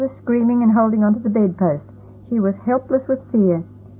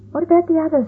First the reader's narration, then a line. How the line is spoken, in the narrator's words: I gasped